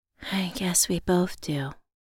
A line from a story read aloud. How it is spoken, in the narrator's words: I whispered